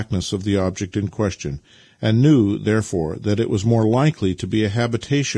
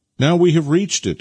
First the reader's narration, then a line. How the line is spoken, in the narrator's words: exclaimed Nikita